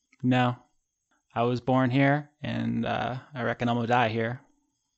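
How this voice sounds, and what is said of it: Southern-accented character voice. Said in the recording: “She's southern now, I've decided.”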